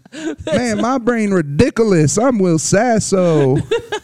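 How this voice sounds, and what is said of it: Exaggerated sketch-comedy character voice. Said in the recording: “I'm just doing Mad TV voice”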